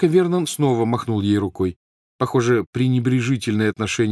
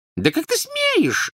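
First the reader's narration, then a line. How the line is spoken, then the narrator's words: Squeaky, indignant aunt. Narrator (Russian): запищала тетя Петунья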